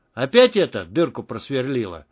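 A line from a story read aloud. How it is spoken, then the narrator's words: Calm question. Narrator (Russian): спокойно спросил негр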